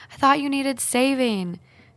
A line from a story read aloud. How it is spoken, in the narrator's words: yelling over my shoulder